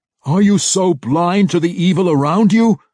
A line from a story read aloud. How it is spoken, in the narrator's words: Zack yelled in his face